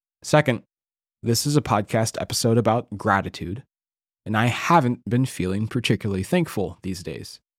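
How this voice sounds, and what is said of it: Voice sounds ill. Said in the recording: “I am recovering from an illness, and perhaps you can hear that in my voice.”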